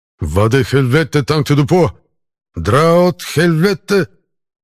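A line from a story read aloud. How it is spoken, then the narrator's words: Very loud. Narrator (Russian): Как же громко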